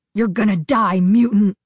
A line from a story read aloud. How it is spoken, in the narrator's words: Ari snarled